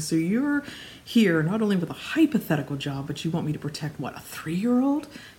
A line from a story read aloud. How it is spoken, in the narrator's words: Victor scoffed